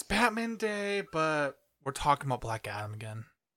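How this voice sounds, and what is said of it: Flat, depressed-sounding voice. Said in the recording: “Why do you sound so depressed?”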